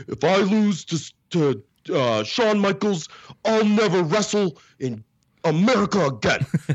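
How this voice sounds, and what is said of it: Imitates another person's voice. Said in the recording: “I don't know if it's a good impersonation or not, but I mean, it might be... Sounded good to me.”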